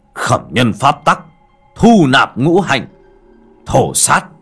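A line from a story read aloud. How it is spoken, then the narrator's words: Loud roar. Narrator (Vietnamese): Anh Duy miệng gầm lớn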